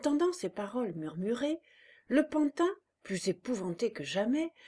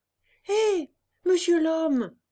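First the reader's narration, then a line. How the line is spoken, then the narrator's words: Shouting. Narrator (French): cria Pinocchio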